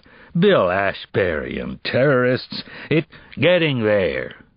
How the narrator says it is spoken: The bank's lawyer said skeptically, with a sour laugh

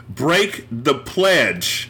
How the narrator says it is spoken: shouted

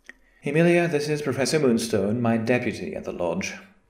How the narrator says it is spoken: the Chancellor said quickly, obviously not wanting to drag out the introduction any further

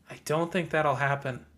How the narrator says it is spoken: Lucy whispered

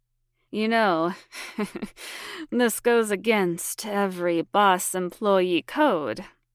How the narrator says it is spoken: he said, laughing

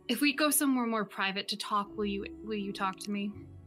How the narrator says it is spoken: he stops, looks at her, <laughs> and just sighs

